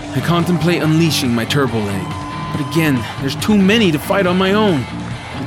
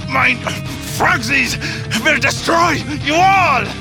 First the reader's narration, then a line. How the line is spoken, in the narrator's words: Hitler shouts